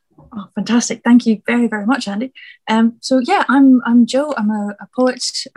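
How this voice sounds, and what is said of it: Scottish accent, mixed with others. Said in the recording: “I'm originally from Scotland, which I'm glad you said you can tell from the accent, because the accent wanders all over the place.”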